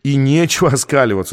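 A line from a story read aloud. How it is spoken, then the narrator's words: Angry. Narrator (Russian): сказал журналист Камерер сердито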